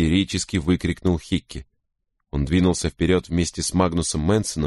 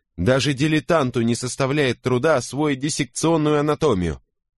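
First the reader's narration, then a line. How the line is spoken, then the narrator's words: Loud interrupting. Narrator (Russian): перебил Гутсер достаточно громким голосом, чтобы заставить помощника конопатчика замолчать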